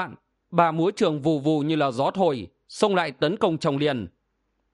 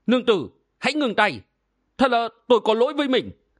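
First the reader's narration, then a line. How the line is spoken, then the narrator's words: Hurried pleading cry. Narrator (Vietnamese): Kỳ Áo Phong vội kêu lên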